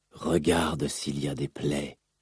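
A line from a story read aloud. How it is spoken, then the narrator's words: Murmured inner voice. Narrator (French): murmurèrent les enseignements de son père au fond de son esprit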